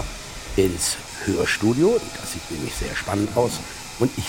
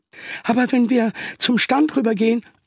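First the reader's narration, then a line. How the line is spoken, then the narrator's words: Unsure, hesitant voice. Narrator (German): sagte Peter mit unsicherer Stimme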